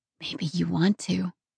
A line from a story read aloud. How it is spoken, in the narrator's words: breathed